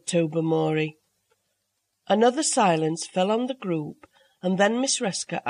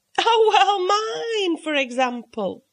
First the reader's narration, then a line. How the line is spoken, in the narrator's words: said Mavis with a little laugh